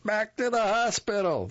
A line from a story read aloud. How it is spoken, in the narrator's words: woman shouted